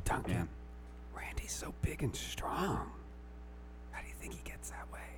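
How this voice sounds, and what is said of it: Whispering. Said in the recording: “I was whispering.”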